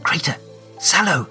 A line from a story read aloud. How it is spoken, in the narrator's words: she hisses into the gloom